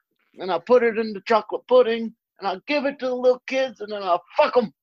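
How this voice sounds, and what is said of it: Imitates another person's voice. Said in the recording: “You do a very good Bill Cosby impersonation.”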